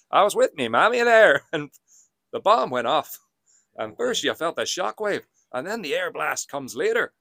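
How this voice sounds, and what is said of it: Put-on Northern Irish accent. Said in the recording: “a rendition of a Northern Irish accent ... if he hears that impression”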